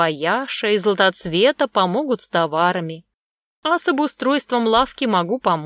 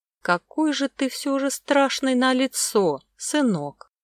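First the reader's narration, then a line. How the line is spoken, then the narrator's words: Sad sighing old woman. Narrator (Russian): вздохнув печально, сказала старушка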